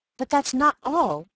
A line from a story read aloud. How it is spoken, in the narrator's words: I cried